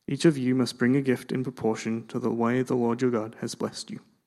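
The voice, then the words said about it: Accent between Australian and English. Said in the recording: “how Australian or English his accent is. Halfway between, I think.”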